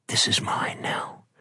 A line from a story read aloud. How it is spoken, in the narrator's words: Bride whispered